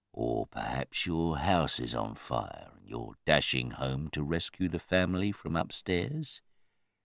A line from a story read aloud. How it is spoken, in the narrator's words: His voice was dangerously soft and mocking